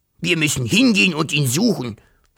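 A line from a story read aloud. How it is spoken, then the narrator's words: Dragon hissing. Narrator (German): fauchte der Drache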